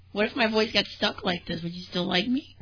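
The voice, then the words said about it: Strained cartoonish voice. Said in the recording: “he's like a cartoon character ... She needs to rest her voice. You rest your voice.”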